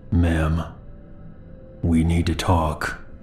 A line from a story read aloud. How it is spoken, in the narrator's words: He then spoke in a low, calm voice